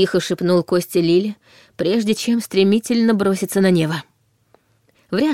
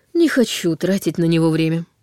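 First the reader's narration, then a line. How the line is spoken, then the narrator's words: Calm explanation. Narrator (Russian): спокойно пояснил Неф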